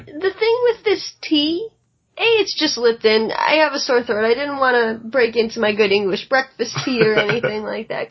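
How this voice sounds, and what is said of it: Slightly raspy, sore-throated voice. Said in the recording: “I actually have a bit of a sore throat ... an air conditioner sore throat ... you sure sound sexy”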